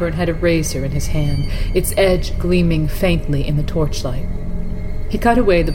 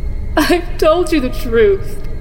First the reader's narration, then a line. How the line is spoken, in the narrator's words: the singer sobbed